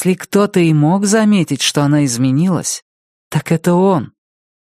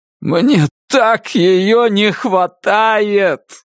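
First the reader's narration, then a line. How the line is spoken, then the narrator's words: Shout broken by sob. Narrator (Russian): закричал он, и глубокий судорожно-болезненный вздох разорвал пополам его фразу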